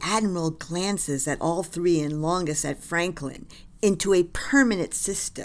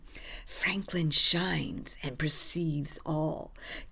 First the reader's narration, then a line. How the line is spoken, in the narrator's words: She whispers to him